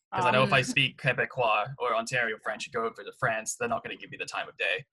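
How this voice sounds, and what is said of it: British accent. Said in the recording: “They hear my accent. It's like, oh, British.”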